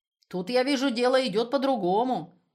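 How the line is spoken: Loud, in German. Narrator (Russian): громко по-немецки сказал Лаптев

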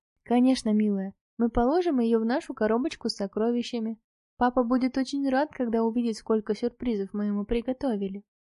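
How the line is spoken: Affectionate reply. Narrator (Russian): ласково ответила

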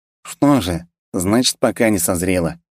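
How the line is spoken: Snorting reply. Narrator (Russian): хмыкнул Кирилл в ответ

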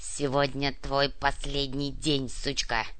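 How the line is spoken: Dog growling. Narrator (Russian): прорычал ротвейлер

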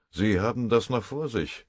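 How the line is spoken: Growled. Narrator (German): knurrte der Bataillonskommandeur

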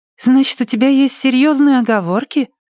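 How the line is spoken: Insisting, innocent voice. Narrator (Russian): настаивает невиннейшим голосом

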